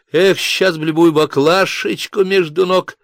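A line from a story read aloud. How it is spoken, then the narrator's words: Distant desperate small shout. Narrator (Russian): крикнул из глубины колонны отчаянный голосок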